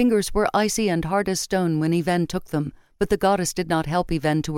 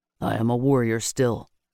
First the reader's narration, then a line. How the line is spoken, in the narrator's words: Matic admitted gruffly